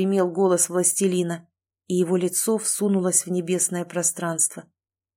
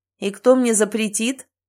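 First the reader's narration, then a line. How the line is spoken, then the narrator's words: Laughing. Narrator (Russian): рассмеялся Ричард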